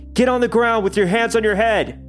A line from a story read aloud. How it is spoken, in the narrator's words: the cop jumps out and yells